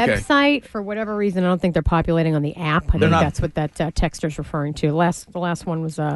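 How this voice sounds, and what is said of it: Usual voice. Nothing is said of it.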